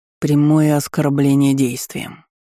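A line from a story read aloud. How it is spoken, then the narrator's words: Icy, precise tone. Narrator (Russian): ледяным тоном четко ответил Кьяртон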